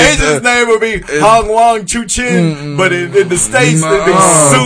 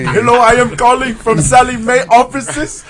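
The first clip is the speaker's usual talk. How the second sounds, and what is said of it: Put-on heavy Punjabi accent. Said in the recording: “with a heavy Punjabi accent”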